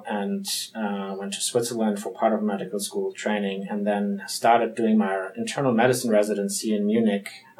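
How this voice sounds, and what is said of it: German accent. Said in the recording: “As you can hear from my accent, I'm from Germany.”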